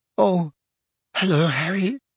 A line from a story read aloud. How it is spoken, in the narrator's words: she said in a brittle voice